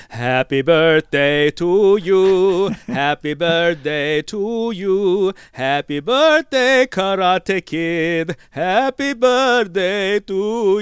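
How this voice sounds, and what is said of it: Sung in an old Italian man's accent. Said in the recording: “I don't know what the accent was. I have no idea. ... Yeah, like an old Italian guy.”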